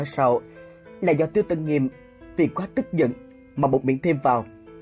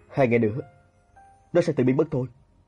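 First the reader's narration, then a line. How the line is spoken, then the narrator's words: Cold, impatient. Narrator (Vietnamese): Diệp Mặc hơi không kiên nhẫn, chỉ lạnh lùng mà nói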